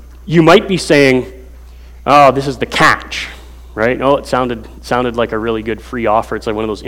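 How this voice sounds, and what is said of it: Usual voice. Nothing is said of it.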